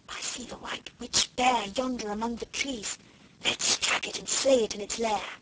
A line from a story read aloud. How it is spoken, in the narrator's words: Alice whispered